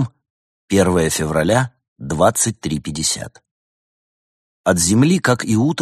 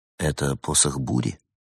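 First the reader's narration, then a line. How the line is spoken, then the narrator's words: Quiet clarifying question. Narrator (Russian): тихо уточнил Улисс у Стига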